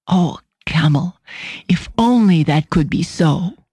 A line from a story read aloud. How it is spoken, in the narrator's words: Esther catches her breath and whispers